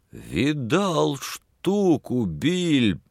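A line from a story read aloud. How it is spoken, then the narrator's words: Near moan. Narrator (Russian): почти простонал один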